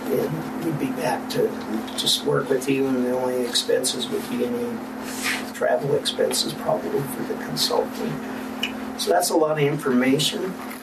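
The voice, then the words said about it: Slightly hoarse, fading voice. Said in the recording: “I'm losing my voice a little bit.”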